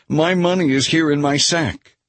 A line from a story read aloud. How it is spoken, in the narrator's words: he exclaimed